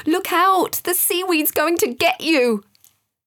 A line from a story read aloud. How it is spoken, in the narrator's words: a voice in his head kept shouting